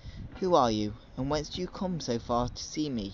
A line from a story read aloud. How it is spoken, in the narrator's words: she asked